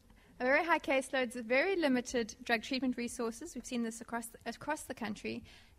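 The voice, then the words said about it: South African accent. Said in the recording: “The accent, by the way, is South African.”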